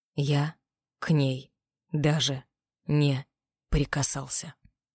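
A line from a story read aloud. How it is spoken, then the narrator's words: Spoken slowly. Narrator (Russian): медленно произнес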